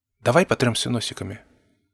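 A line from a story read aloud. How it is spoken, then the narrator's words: Quiet suggestion. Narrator (Russian): предложила Эпплблум тихим голосом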